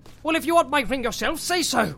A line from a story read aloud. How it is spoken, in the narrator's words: cried Bilbo